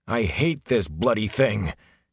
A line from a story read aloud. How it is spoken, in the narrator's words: he growled